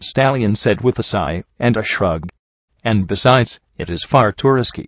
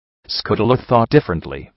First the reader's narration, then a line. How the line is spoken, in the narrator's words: Stratus said bitterly